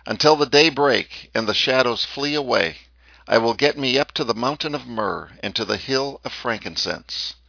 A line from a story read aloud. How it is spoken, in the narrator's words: the king, beautiful type of God's corporate son, head and body, exclaims